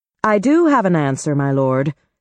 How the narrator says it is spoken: said Lieutenant On

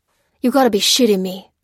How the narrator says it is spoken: growled Major Lopez

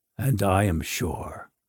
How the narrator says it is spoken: Faliol replied in a monotone

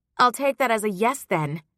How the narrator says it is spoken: Petra snapped

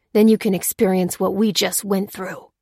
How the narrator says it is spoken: growled Ruth

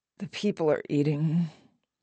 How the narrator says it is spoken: muttered

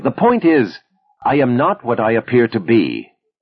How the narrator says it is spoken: Viktor prodded impatiently

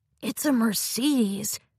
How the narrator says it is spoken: hissed

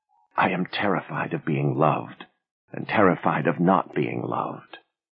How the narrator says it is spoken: she pressed her lips to his ear and whispered

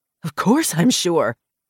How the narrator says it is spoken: he snapped

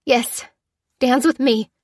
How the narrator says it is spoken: choked Lucy

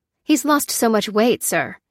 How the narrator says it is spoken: said the technician anxiously

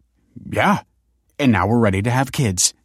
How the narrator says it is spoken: chuckled Michael

